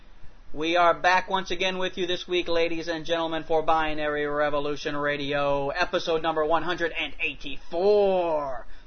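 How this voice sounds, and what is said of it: Morning-show radio announcer voice. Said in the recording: “my normal, everyday, over-the-terrestrial radio voice like the morning shows”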